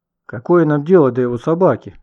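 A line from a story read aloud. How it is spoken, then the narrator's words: Exclaimed. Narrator (Russian): воскликнул Никита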